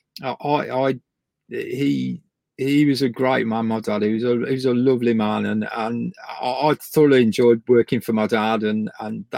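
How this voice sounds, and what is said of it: English Midlands accent. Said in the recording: “You can probably tell from my accent, ... I come from the Midlands.”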